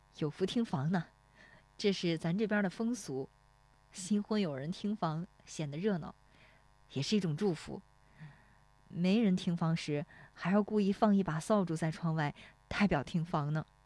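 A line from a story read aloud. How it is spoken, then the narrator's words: Laughing. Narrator (Chinese): 史丽华笑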